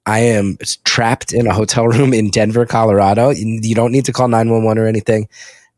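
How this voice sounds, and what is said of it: Weak, sick-sounding voice. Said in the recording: “I think you can hear my voice is a little weak. ... came down with the COVID.”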